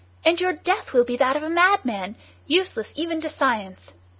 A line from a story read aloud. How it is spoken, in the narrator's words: he cried